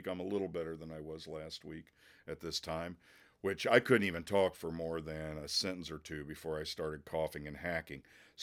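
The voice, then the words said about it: Hoarse, worn-out voice. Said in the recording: “my voice is shot. I've been ill... I'm sorry if I sound terrible”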